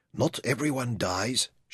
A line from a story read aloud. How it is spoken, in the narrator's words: whispered to herself